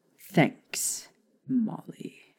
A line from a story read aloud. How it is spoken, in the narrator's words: Sirius said coldly